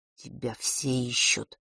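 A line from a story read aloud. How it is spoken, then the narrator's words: Barely audible whisper. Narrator (Russian): едва слышно прошептал Фэш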